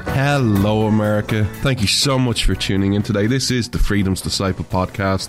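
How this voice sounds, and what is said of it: Irish accent. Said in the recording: “This Irish man stands with America ... where you come for the accent”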